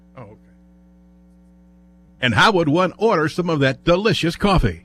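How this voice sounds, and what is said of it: Smooth deep radio announcer voice. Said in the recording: “Some people were born with a radio voice”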